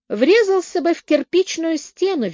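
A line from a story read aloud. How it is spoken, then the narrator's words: Cheerful. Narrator (Russian): весело произнес Слоун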